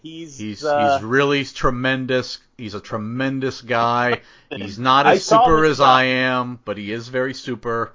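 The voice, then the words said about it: Imitates another person's speech pattern. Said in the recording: “I can't do a Trump impersonation. ... I can do the mannerism, the speech pattern. And what you do is, like, you say a thing, and then you say that you said that thing.”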